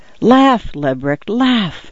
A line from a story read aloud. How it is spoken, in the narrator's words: I whispered